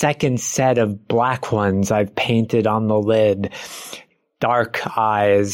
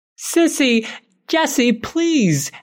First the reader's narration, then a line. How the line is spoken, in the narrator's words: Emma screams